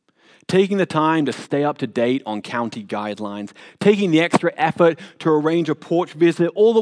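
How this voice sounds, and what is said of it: Noticeable accent. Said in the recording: “I have enough issues with my accent as it is ... repeating myself when ordering food ... even my father-in-law couldn't understand half of what I was saying”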